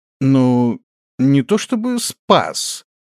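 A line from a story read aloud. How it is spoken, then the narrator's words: Uncertain. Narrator (Russian): неуверенно произнес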